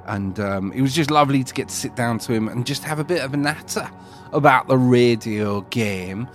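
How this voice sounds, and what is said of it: Bad put-on northern English accent. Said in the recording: “I put on a northern accent sometimes, especially a bad northern accent like that”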